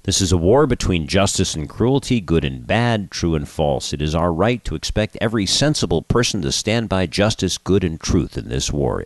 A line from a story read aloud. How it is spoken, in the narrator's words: Erdogan said